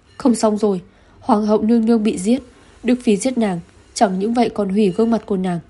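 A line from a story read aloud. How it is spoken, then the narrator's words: Frightened screaming. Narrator (Vietnamese): Bọn họ sợ hãi hét lên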